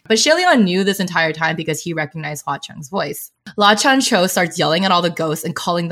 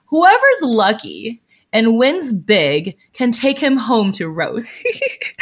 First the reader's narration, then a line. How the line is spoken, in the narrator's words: Hua Cheng just laughs and says